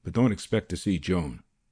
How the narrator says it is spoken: he growled

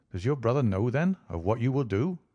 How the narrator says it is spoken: I asked

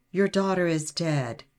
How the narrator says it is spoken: he said

